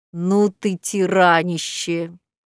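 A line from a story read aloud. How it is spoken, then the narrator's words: Admiring drawl. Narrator (Russian): Зоя восхищенно протянула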